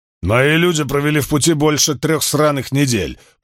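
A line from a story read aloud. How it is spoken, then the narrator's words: Growling. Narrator (Russian): прорычал Крикс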